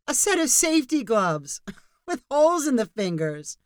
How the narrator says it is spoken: called the laughing researcher

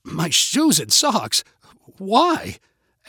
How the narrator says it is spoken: asked Eric with a nervous laugh

